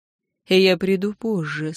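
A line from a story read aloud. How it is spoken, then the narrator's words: Quiet and hoarse. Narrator (Russian): сказал он тихо и хрипло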